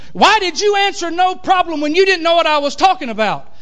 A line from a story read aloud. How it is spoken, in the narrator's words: I'm half hot and half anointed now, you know, and so I just shouted back at him